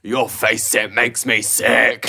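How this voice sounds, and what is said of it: Heavy metal style vocal. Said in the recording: “do a heavy metal impression? ... What's the heavy metal? ... That's really good.”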